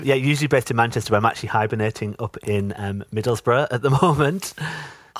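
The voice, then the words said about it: Northeast English accent. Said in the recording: “your delicious accent ... I'm a northeast boy”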